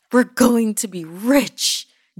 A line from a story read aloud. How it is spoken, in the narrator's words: Jijimar shouted